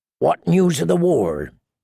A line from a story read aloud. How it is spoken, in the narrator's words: he asked